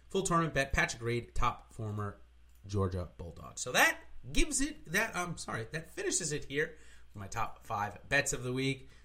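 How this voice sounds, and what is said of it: Loud, excited, carrying voice. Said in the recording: “My voice is probably carrying a little bit more than normal ... I apologize if I'm screaming in your ear”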